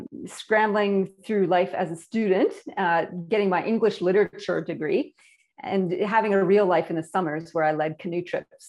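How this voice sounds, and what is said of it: Canadian accent. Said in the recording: “first thing you're going to hear is my accent. Apparently I have one, and I'm imported from Canada”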